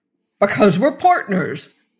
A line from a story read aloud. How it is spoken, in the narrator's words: blurted the first